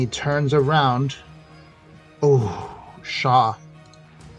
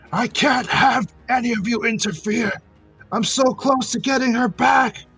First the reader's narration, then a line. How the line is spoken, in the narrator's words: the professor from above as he screams back